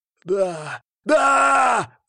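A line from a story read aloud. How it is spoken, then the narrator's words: Yelled. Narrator (Russian): заорал он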